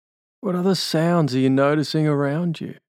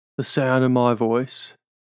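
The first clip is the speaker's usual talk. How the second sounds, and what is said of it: Fake Australian accent. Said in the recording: “Fake Australian accent.”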